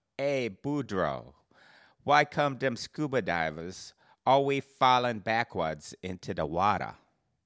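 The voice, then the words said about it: Put-on Cajun accent. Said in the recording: “telling the joke, but with a Cajun accent.”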